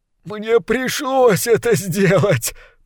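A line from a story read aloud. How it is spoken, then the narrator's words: Moaning. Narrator (Russian): простонал крысолов номер два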